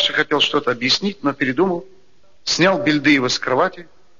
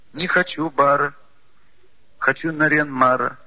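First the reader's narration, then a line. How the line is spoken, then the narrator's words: Child's rhythmic whine. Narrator (Russian): складно проскулил маленький Бельдыев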